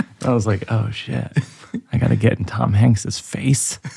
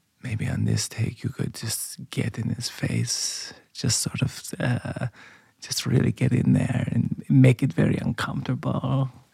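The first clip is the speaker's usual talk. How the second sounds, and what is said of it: Imitated Swiss German accent. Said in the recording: “that imitation of the accent... Swiss German”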